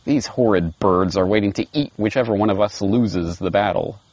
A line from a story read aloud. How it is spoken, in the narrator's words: grumbled the lion quietly